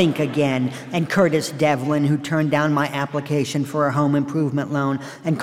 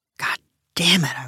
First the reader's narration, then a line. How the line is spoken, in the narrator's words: I whispered